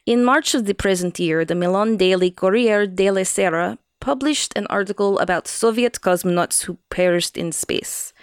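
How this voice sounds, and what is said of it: Put-on Russian accent. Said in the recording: “Am I doing this in a Russian accent? ... Yeah”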